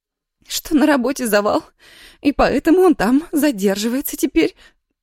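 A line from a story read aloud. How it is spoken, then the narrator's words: Sobbed. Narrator (Russian): всхлипнула Ира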